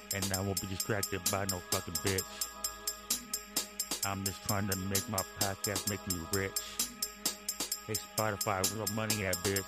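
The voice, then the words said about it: Muffled voice, like an old tape. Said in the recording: “My voice sounds muffled. I did it that way ... my voice sounds like an old tape or a scratch CD”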